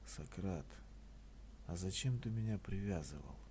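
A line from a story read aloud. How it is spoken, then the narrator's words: Weak voice. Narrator (Russian): я спросил слабым голосом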